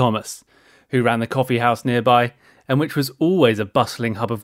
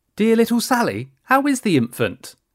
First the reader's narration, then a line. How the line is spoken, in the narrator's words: cooed Mrs